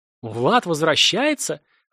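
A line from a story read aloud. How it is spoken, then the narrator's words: Excited. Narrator (Russian): радостно вскинулся Стас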